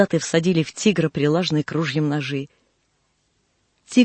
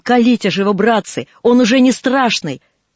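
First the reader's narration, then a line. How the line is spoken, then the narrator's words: Shouted. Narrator (Russian): Монтек крикнул солдатам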